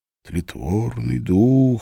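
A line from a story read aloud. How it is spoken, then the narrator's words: Remembered whisper. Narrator (Russian): шепнул в памяти студент-филолог Глеб Тиженко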